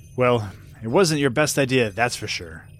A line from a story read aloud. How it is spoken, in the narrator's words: she sighed